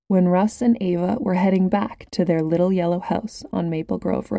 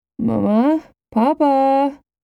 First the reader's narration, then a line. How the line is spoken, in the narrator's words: Russ croaked as loudly as he could manage